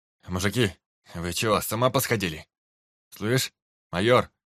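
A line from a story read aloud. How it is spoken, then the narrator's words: Barked. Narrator (Russian): рявкнул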